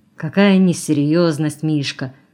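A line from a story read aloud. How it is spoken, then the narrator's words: Grumbling. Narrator (Russian): проворчал Белоглазов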